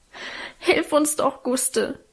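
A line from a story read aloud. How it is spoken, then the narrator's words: Sobbing. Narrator (German): schluchzte Alwine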